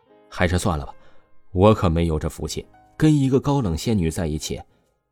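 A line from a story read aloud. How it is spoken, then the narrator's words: Calm, flat. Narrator (Chinese): 王峰淡淡的声音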